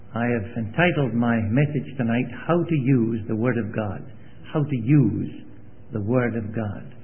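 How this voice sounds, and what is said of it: Foreign regional accent. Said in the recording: “you're just getting used to my accent ... it's not really too foreign to you ... He never changed my accent”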